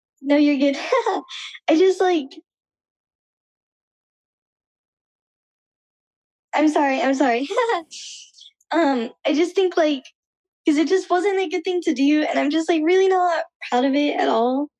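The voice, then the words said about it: Emotional, choked-up halting speech. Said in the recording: “made me a little emotional”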